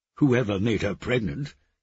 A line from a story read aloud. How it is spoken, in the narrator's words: he snapped